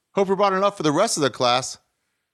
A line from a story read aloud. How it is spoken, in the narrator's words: a man in the back of the room hollered